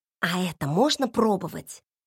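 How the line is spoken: Whispered question. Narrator (Russian): шепотом спросила у Филиппа

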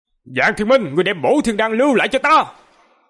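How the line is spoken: Furious roar. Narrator (Vietnamese): Hai mắt Cực Âm sư tổ như muốn phúng ra hỏa, gầm lên nói

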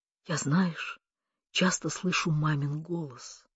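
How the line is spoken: Hoarse whisper in ear. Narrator (Russian): хрипло прошептала она в его ухо

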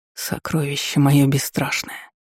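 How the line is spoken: Whispered. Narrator (Russian): прошептал

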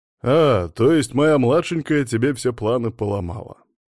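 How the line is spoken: Cheerful smirk. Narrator (Russian): Весело усмехнулся Боло

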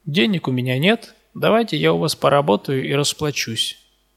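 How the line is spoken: Calm. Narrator (Russian): она мне так спокойно говорит

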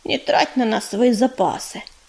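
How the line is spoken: Quiet. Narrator (Russian): тихо сказала она

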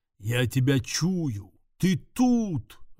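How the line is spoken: Close menacing growl. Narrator (Russian): рычал жирный демон, пугающе близко

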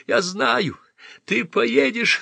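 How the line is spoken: Sobbing into handkerchief. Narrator (Russian): рыдала она в платочек

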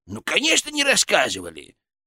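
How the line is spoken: Condescending snort. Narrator (Russian): снисходительно хмыкнул

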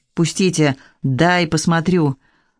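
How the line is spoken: Calm statement. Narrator (Russian): спокойно констатировала

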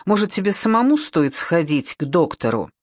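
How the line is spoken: Snapping back. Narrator (Russian): Она впервые огрызнулась

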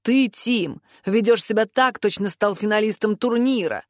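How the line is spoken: Hissed through teeth. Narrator (Russian): прошипел сквозь зубы Авис, маг-воздушник

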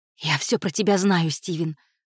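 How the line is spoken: Hoarse rasp. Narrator (Russian): прохрипела она

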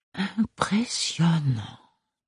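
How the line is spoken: Murmured. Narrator (French): murmura Archibald

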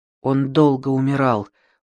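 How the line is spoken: Mumbled. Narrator (Russian): пробормотала

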